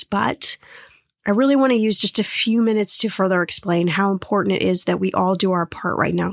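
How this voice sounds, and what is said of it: Sick voice with lingering cough. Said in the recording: “Still have a bit of the cough, and you can probably hear it in my voice”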